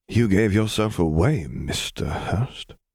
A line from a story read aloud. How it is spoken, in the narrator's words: he murmured, barely loud enough to be heard